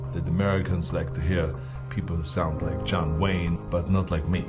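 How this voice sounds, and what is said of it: Strong non-American accent. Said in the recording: “someone with an accent like me ... I talked different than everyone else”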